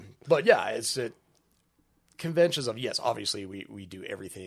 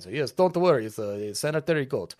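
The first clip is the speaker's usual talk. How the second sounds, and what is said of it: Badly done unidentifiable put-on accent. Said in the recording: “I don't even know what accent that was. That was horrible.”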